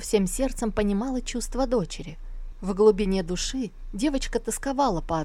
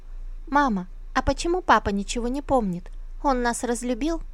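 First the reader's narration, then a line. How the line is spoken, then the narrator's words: Timid question. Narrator (Russian): робко спросила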